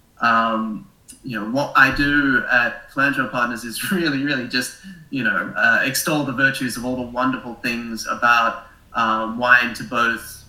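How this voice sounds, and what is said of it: Australian accent. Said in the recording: “Originally, I'm Australian, as you probably noticed from my funny accent”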